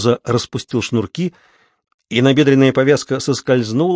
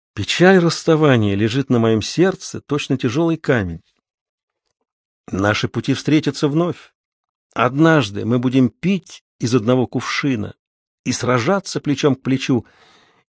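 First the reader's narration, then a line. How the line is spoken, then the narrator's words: Quiet. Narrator (Russian): тихонько ответил Камуза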